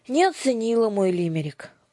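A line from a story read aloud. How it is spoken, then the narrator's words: Glum statement. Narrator (Russian): уныло констатировала Дара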